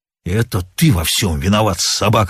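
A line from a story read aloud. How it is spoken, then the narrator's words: Rasping. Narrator (Russian): хрипел он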